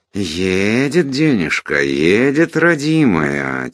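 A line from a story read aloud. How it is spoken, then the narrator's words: Soft ingratiating drawl. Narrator (Russian): тихим, вкрадчивым голосом протянул козырь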